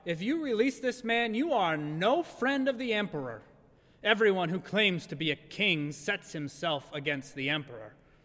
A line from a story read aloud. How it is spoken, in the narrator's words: cried out